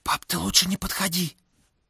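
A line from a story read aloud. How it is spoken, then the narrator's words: Fast muffled whisper. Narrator (Russian): Виталька говорил быстрым шепотом, закрывая рот ладонью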